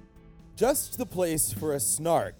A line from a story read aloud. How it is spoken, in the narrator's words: the bellman cried